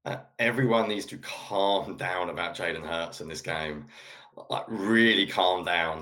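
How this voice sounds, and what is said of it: English accent. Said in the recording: “being from England, as I'll talk about a lot, and you don't know by the accent”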